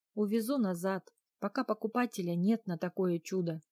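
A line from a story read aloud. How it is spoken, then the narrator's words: Sorrowful sigh. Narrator (Russian): горестно вздохнул Оливер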